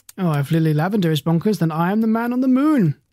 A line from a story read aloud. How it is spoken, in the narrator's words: he said with a chuckle